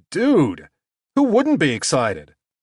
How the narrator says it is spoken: exclaimed

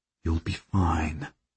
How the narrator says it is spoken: I murmur to her

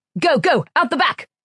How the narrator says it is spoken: shouted Koyich

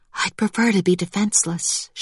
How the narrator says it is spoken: whispered

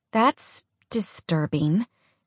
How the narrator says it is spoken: Alex mumbled

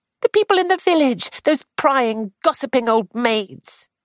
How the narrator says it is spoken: Clarice said sharply

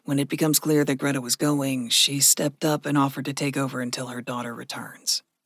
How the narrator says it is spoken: Gregory said softly

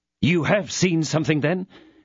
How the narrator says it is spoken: exclaimed D'Artagnan

